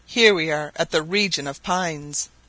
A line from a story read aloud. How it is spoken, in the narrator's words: cried Barbicane